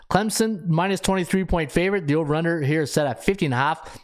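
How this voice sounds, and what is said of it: Hoarse, strained voice. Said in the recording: “I am losing my voice”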